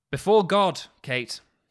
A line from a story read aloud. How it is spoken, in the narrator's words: he says